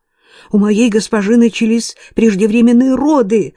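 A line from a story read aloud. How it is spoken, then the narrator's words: Shrill squeal. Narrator (Russian): взвизгнула Гвен Лиан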